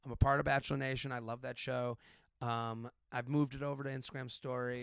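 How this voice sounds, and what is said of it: Raspy voice. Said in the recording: “my voice is kind of raspy. I yell at the TV”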